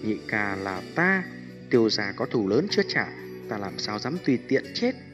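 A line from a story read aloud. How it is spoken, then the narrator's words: Soft, smiling. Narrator (Vietnamese): Tiêu Viêm mỉm cười, nhẹ giọng nói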